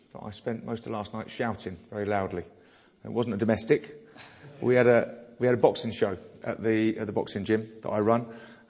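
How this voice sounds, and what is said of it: Slightly hoarse voice. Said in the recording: “I'm a bit hoarse ... this morning I'm struggling with my voice”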